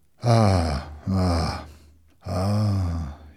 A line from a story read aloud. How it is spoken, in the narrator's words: said sadly